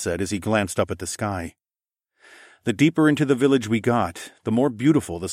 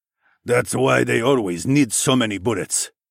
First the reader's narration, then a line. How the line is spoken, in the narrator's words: Quan grunted